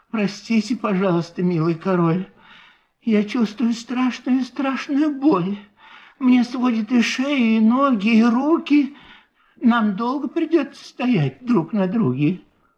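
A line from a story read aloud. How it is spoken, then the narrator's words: Sad, quiet, polite, turtle. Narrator (Russian): Вздохнула печально и горестно так одна черепашка по имени Мак, тихо и вежливо произнесла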